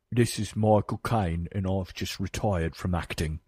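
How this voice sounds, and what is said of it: Slow Michael Caine impression. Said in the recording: “Do you have a Michael Caine impersonation? ... That's pretty good. That's decent. ... it is sort of a slow ... saying their name”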